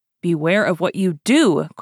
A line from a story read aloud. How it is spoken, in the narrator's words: cried the young woman in a manner so serious as to make D'Artagnan start